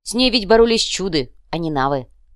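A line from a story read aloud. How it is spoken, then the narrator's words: Angry smirking. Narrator (Russian): зло усмехнулась Давора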